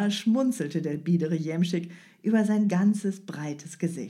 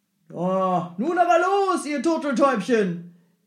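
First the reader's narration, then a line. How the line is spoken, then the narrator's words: Cheerful call. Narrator (German): rief er seinen Tieren fröhlich zu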